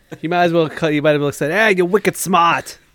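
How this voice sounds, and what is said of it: Put-on Boston accent. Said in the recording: “he's doing your cousin from Boston accent”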